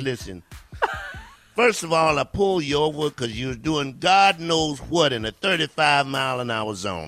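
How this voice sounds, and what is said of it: Police officer character voice. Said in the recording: “my impression. This is my impression if Santa Claus got pulled over by the police.”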